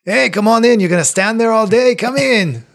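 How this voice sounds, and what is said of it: Character voice with put-on accent. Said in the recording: “keep that accent up the whole time ... Watto”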